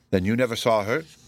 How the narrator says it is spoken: said the sculptor

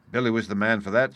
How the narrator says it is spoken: said Israel

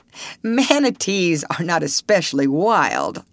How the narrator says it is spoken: laughed Mr

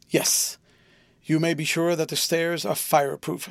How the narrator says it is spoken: said Mr

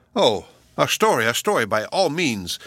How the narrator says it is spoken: cried the young girls

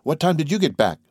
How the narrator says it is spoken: She cried

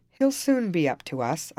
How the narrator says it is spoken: observed Carlos in an unconcerned tone

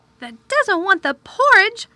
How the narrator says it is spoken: Martha exclaimed incredulously

